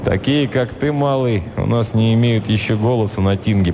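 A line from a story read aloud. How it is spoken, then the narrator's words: Grumble. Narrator (Russian): проворчал варяг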